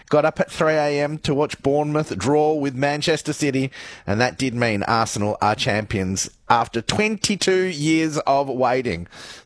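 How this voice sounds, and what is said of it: Slightly croaky voice. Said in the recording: “you can probably hear it in my voice. I'm a bit croaky maybe a little bit”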